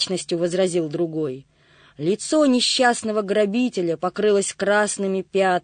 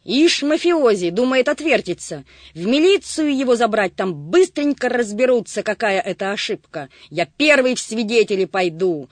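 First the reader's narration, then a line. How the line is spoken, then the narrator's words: Heated shouting. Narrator (Russian): Распалившись, кричал Сизоносый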